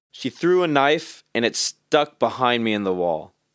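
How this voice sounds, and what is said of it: Impression of the poet reading. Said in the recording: “my best impression of him”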